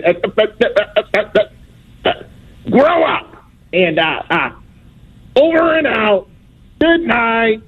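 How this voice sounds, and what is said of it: High-pitched imitation of another person's voice. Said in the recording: “that is a stunningly good imitation there ... after going that high ... that was a good John from St. Louis impersonation right there”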